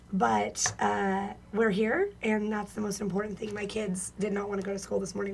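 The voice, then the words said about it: Hoarse, worn-out voice. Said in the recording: “the cheer hangover struggle is real this morning, as you can tell from my voice”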